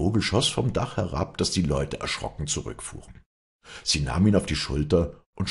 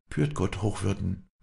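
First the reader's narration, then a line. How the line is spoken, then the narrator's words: Quiet. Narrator (German): sagte sie leise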